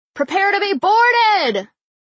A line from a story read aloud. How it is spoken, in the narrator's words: bellowing